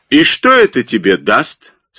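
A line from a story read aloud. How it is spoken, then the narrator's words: Angry question. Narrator (Russian): спросил Китсон сердито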